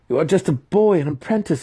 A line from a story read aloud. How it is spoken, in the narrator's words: he stammered